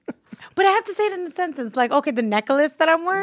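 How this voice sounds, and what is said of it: Brooklyn accent. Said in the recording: “It's my accent. ... it's her Brooklyn. ... Brooklyn accent.”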